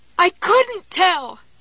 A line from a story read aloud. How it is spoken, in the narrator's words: Jessie shrieks